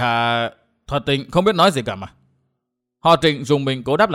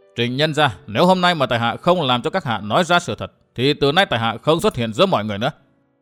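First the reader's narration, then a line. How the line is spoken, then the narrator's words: Cold, hardened. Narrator (Vietnamese): Sắc mặt đanh lại, vẻ lạnh lùng hiện lên trên đôi mắt, Địch Tuân nói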